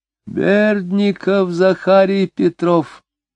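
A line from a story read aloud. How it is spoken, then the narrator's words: High, almost feminine voice. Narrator (Russian): сказал он высоким, почти женским голосом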